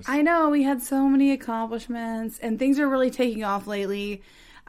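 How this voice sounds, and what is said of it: Tired, low-energy, fading voice. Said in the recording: “I probably don't seem as energetic as usual. I'm really, really tired ... my voice is going away from doing so many shows”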